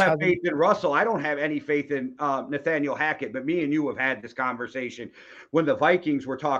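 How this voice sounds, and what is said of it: Usual voice. Nothing is said of it.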